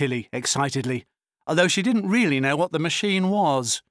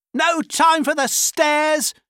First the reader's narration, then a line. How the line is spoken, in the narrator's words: shouted her dad